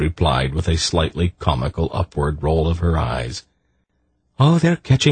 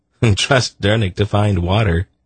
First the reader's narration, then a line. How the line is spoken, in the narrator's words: Geryon laughed